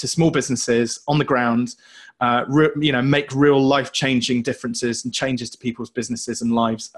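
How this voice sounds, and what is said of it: British accent. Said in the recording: “where the heck is his accent coming from? ... joining us from the UK ... the British accent is the best accent on planet Earth”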